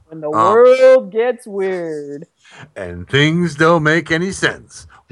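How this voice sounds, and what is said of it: Imitates another person's voice. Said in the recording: “I wanted to hear him do my voice.”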